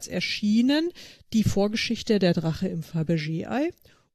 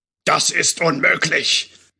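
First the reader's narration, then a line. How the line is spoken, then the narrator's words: Loud booming male voice. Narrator (German): donnerte wieder die laute Männerstimme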